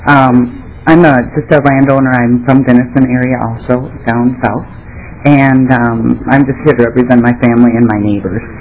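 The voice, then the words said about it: Congested voice from a cold. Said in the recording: “I have a cold, so apologize for my voice”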